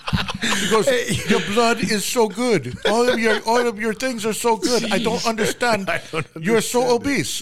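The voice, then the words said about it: Bad imitated Romanian accent. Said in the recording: “there's a Romanian lady ... This is the worst accent.”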